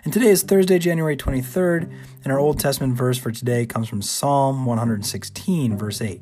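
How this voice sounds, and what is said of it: Hoarse, partly lost voice. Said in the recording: “at least half my voice is here today”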